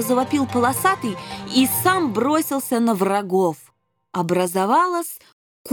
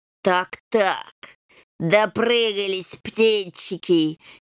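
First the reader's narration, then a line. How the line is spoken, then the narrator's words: Snide hiss, old lame man. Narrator (Russian): ехидно прошипел хромой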